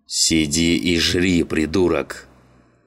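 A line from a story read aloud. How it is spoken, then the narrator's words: Growling. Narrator (Russian): Рычал машинист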